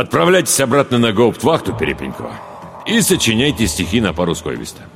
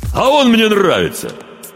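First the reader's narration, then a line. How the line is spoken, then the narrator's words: Sudden laugh from afar. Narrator (Russian): Неожиданно засмеялся из угла десантник с полковничьими нашивками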